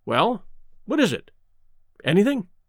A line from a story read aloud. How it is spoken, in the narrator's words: asked Maxwell sharply